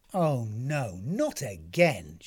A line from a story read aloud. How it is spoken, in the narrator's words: she groaned